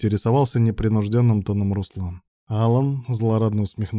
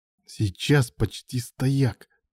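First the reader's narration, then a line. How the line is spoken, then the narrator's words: Hissed up close. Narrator (Russian): прошипел ему в лицо Илья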